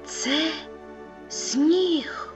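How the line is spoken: Whispered, small creature. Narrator (Ukrainian): прошепотів мумітроль

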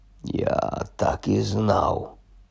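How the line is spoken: Muttered. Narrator (Ukrainian): пробурмотів він

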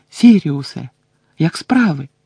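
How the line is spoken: Exclamation. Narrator (Ukrainian): вигукнув

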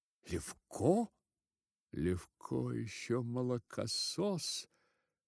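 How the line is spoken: Hoarse, low voice. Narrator (Russian): говорил хрипло и вполголоса высокий человек

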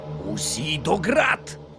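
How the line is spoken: Growled. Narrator (Ukrainian): Загарчав містер Відгем

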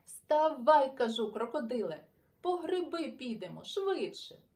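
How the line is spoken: Exclaimed. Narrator (Ukrainian): вигукнув Сашко Циган

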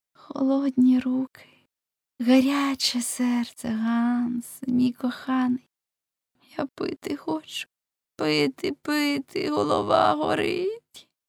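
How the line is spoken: Moaning. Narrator (Ukrainian): А Кетліна у відповідь простогнала

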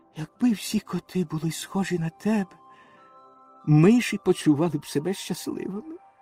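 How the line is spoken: Whispered into ear. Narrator (Ukrainian): пришепотів йому на вухо

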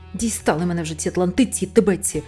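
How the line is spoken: Barked. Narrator (Ukrainian): гаркнув Адам

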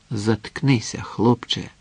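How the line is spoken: Quiet, almost breathless. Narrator (Ukrainian): Самад не сказав йому тихо, майже зачаївши дихання

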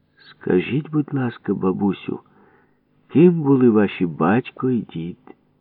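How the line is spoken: Gentle question. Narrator (Ukrainian): Ніжно питав її опецькуватий археолог Папуша

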